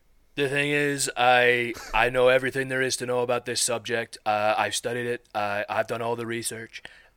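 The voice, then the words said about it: Imitates another person's voice. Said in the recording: “Go for your Donald Trump impression. ... It does kind of have a little bit of flair to it.”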